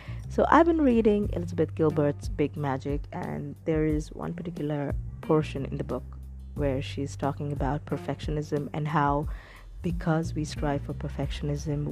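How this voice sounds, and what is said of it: Put-on accent. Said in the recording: “time to put on a little bit of an accent”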